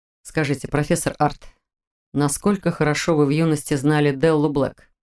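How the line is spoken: Calm inquiry. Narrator (Russian): Спокойно поинтересовался ректор

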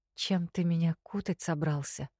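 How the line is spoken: Hoarse whisper. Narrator (Russian): Шепчу охрипшим горлом

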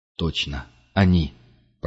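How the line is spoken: Whispered. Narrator (Russian): прошептал Пард

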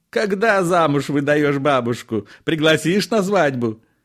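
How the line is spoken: Speaking through laughter. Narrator (Russian): еле выговорил сквозь смех Илико

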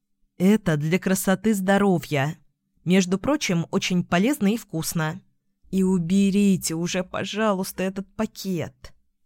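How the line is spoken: Quiet whimper. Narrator (Russian): Хныкнула тихо

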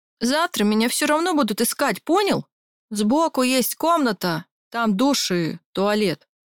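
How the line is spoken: Loud declaration through door. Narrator (Russian): заявил он громко через дверь

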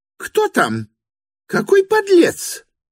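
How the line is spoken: Angry shrieking old woman. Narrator (Russian): Злобно провизжал уже совершенно соответственное оскорблению женский голос старой девы, родственницы Вергинского

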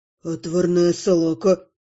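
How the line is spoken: Grumbling mutter. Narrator (Russian): буркнул оборотень

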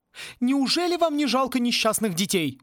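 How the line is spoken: Exclaimed. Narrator (Russian): воскликнула Сьюзан

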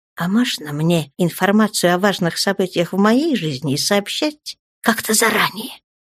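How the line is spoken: Angry hiss. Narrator (Russian): прошипела Наташа, злобно

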